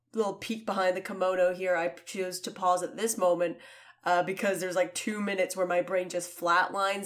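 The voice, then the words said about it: Sick, groggy, rough voice. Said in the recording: “my voice sounds like death, and I am the groggiest”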